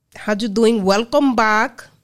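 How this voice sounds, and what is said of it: Made-up foreign accent, Borat-like. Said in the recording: “What accent is that? ... It's just something I made up at the time. ... It sounds like Borat.”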